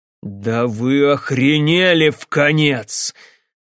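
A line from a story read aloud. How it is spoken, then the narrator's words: Menacing ringing voice. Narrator (Russian): Голос у него грозно зазвенел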